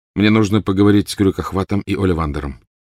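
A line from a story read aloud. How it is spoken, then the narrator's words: Plain. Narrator (Russian): сказал Гарри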